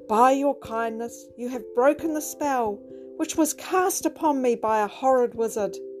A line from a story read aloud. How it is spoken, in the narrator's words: a handsome prince, who exclaimed